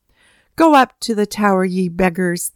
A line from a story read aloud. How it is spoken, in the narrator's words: they laughed